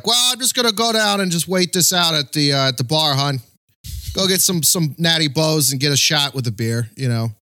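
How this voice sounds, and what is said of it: Imperfect put-on Baltimore working-class accent. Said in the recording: “I haven't gotten down the Baltimore working accent yet, other than, the word hon.”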